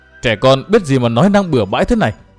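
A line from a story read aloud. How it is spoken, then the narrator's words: Hurried scolding. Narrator (Vietnamese): Vội cất tiếng nạt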